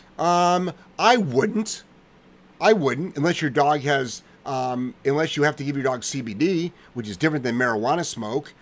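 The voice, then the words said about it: Talking very loudly. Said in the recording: “if it sounds like I'm yelling, I apologize ... I'm going to just like talk really loud ... So you're just going to scream the whole show ... I'm not screaming. I'm just talking louder.”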